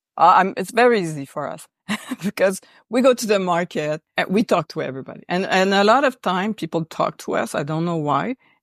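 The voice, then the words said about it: Quebec French-Canadian accent. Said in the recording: “our accent, first of all, ... It says Quebec.”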